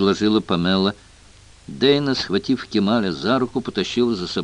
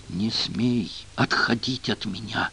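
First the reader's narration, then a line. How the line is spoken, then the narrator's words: Angry hiss. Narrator (Russian): злобно прошипела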